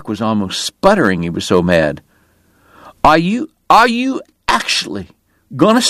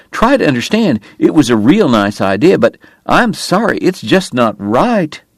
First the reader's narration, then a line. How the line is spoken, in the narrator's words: Wyatt pleaded